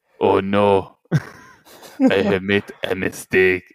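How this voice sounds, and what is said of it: Imitates another person's voice. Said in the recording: “my Arnold impression ... That's a good Arnold impression ... Your Russian accent, your Arnold accent, they're all the same.”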